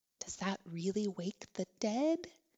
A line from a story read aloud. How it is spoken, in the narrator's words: Bexley whispered